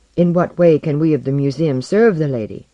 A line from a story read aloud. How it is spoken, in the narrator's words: her voice ran like a brief silver wind